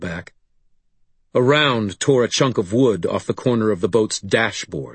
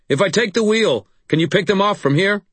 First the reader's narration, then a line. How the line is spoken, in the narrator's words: I shouted toward my brother